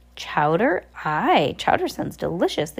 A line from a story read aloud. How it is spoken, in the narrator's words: the captain cried